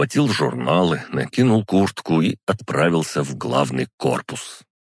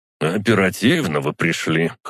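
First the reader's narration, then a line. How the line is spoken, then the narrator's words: Wry grunt. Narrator (Russian): хмыкнул он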